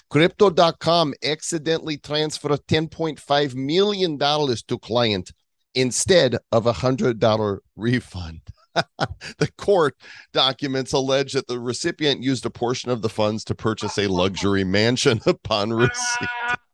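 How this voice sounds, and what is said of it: Mock Russian accent. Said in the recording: “keep accent for next article just to pay tribute to Mikhail Gorbachev”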